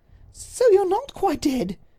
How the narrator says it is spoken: she cried

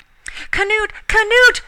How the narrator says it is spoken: she screamed in terror

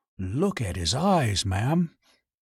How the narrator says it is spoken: He drew in his breath, and whispered

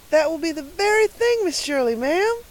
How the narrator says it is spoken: exclaimed Carlotta the Fourth in rapture

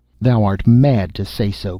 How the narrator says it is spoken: cried the Star Child angrily

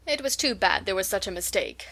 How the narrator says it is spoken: said Mrs

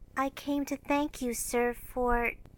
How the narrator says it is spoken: saying, with only a small quaver in her voice

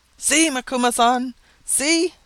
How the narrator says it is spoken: said Mashoon excitedly

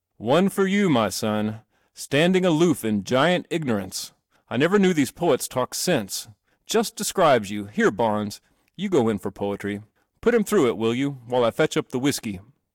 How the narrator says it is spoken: His father laughed again, roared

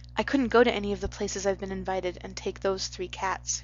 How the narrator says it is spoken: she said

